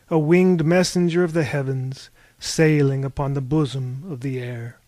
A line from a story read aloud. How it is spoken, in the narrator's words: Harvey sighed